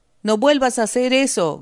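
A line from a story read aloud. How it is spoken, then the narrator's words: Shouted. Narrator (Spanish): gritó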